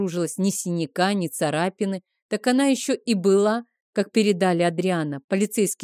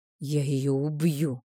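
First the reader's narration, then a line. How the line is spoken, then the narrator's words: Furious whisper. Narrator (Russian): шептал Рик, до красноты сжав кулаки на коленях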